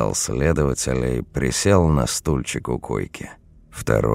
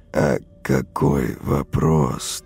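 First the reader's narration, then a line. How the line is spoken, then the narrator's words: Strained, forced out. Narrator (Russian): только выдавил он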